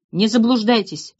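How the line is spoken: Muttering grumble. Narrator (Russian): пробурчал Пенегин

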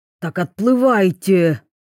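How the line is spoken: Exhausted exclaiming. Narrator (Russian): воскликнул измученный Идзуми

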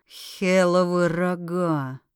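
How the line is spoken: Audible mutter. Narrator (Russian): пробормотал про себя Скай, но слышно было всем

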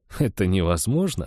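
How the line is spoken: After laughing. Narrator (Russian): ответил я, отсмеявшись

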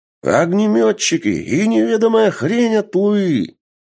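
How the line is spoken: Soldier's exclamation. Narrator (Russian): воскликнул другой боец

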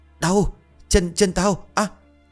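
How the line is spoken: Shouting. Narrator (Vietnamese): thằng Hải hét lên

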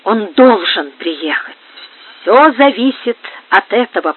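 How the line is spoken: Whisper. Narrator (Russian): прошептала Бланка Мария

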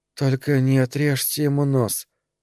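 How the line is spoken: Slurred mumble. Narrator (Russian): успела пробормотать она заплетающимся языком

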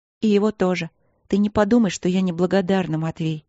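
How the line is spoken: Sad. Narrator (Russian): добавила она грустно

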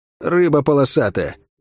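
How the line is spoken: Muttered grumble. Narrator (Russian): буркнула Лавиане

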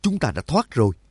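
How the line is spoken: Joyful exclamation. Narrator (Vietnamese): Nhạc Dương mừng rỡ thốt lên

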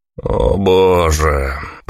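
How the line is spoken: Drawled. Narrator (Russian): протянул я

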